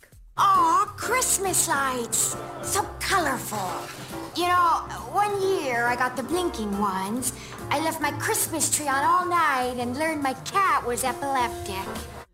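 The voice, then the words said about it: Jennifer Coolidge impression. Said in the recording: “She impersonated Jennifer Coolidge ... what a great impersonation. ... It's really good.”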